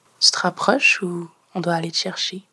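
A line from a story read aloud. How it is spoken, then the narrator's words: Suave inquiry. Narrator (French): s'enquit Fred, d'une voix suave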